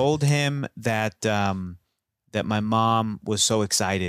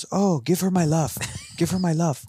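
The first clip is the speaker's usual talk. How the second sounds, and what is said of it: Imitates another person's accented voice. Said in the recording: “It's the accent that you need.”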